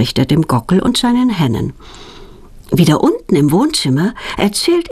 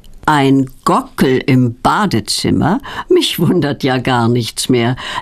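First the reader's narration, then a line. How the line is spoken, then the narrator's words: Laughing. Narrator (German): lacht Petronellas Onkel Berti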